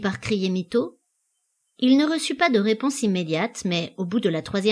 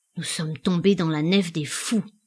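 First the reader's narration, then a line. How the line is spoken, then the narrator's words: Low voice. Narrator (French): dit-il à mi-voix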